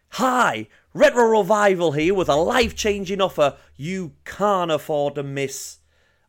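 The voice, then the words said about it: Over-the-top American infomercial accent. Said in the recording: “I feel like I need to go a little bit American... over the top cheese is American... not very good American accent”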